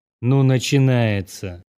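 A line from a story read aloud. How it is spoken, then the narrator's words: Sigh. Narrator (Russian): вздохнул я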